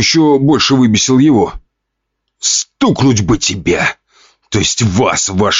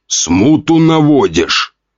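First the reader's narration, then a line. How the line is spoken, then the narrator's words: Growling. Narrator (Russian): рыкнул он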